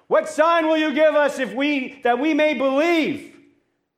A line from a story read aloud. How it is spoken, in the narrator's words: someone else yells out to Jesus